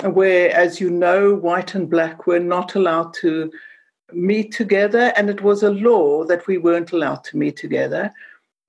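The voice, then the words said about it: South African accent. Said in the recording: “I speak with an accent because I come from Cape Town”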